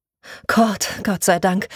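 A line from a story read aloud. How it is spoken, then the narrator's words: Woman sighing deeply. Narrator (German): sagte sie und seufzte tief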